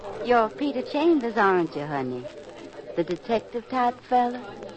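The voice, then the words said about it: Southern American accent. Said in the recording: “Oh, I love that Harmony Grits accent.”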